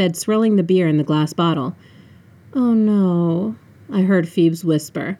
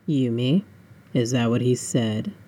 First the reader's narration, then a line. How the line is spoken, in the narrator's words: He asked calmly, too calmly